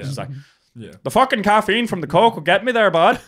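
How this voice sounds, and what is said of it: Put-on accent, sounds Canadian. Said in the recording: “I don't know what accent this is. Canadian.”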